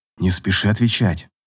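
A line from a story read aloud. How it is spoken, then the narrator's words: Whisper in ear. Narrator (Russian): шепнул Дастиан принцессе на ушко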